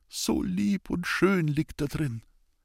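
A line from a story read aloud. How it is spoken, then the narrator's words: Tearful whisper. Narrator (German): Mit nassen Augen stand sie vor dem heiligen Grab und flüsterte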